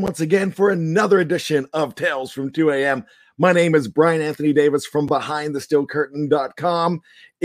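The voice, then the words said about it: Hoarse, nearly lost voice. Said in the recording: “If you can tell by my voice, ... I have completely lost my voice. ... I'm just struggling with the voice ... I did a lot of cheering, screaming, yelling”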